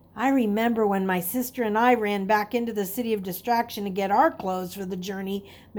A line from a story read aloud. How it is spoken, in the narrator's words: Mary said